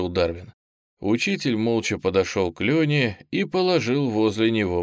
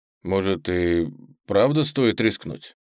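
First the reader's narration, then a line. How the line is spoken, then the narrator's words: Uncertain. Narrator (Russian): неуверенно произнес Леня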